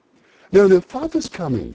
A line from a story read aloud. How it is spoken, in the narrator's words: cried the two young, who were everywhere at once